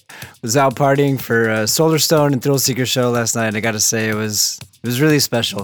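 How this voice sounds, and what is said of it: Slightly hoarse voice. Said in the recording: “excuse my voice being a little hoarse”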